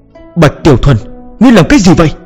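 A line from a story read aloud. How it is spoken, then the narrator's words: Roaring. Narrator (Vietnamese): trưởng môn Trịnh Viễn Đồng cũng gầm lên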